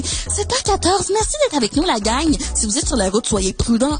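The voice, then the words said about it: Imitates a Quebec commercial radio host. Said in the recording (French): “elle fait des imitations des radios commerciales québécoises et françaises ... une imitation d'une radio commerciale québécoise”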